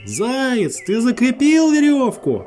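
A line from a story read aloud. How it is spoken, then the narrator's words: Bear cub shouting from afar. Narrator (Russian): С другого берега медвежонок прокричал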